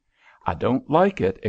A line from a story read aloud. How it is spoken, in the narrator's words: exclaimed Hoban suddenly